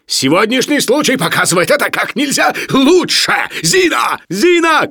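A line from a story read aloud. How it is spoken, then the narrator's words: Shouting. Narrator (Russian): кричал Барменталь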